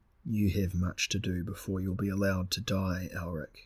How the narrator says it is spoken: Separates said quietly

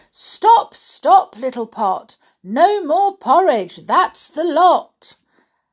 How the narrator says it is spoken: Rosie shouted

